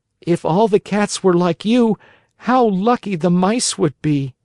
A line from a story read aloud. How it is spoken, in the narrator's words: Pinocchio, almost in tears himself, whispered in the cat's ear